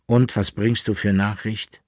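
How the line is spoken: Plain. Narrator (German): fragte der Alchemist

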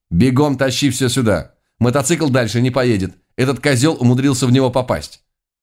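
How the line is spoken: Commanding tone. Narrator (Russian): приказным тоном заявила

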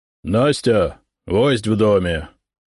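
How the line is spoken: Loud deep bass. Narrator (Russian): громко пробасил сотник

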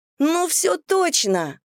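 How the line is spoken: Exclamation. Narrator (Russian): воскликнула Даша

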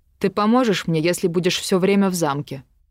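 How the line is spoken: Barked. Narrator (Russian): рявкнул Артур

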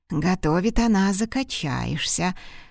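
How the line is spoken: Secretive whisper. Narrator (Russian): прошептал ему давеча Сеп на ухо, чтобы лисица не услышала

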